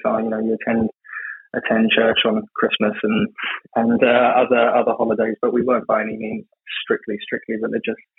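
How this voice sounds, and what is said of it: English accent from London. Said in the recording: “as you can probably tell by my accent, I'm not from North America. I grew up in ... London”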